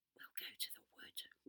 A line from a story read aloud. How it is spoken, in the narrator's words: whispered Beth to the others